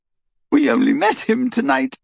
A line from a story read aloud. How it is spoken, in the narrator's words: Hermione sobbed